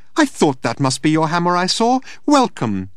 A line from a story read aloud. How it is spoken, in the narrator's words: chirped